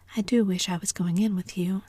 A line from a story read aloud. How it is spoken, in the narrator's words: said Diana